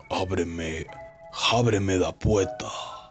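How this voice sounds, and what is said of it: Eerie whisper. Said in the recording (Spanish): “susurro escolofrante”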